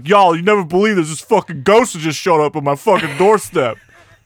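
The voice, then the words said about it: Put-on Jersey accent. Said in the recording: “talking with a Jersey accent ... I can't do East Coast accents.”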